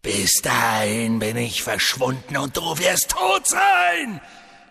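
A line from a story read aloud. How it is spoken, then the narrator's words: Hissing. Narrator (German): fauchte Voldemort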